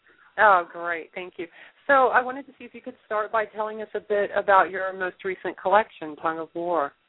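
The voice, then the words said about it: Slightly off voice with a cold. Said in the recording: “I've got a little bit of a cold tonight, so excuse me if my voice sounds a little off.”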